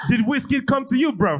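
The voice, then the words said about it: Put-on London O2 accent. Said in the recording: “I want to do this in O2 accent”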